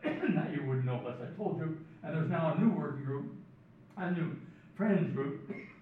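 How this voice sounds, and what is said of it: Canadian English accent. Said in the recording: “you can guess from my accent, it's chaired by Canadians”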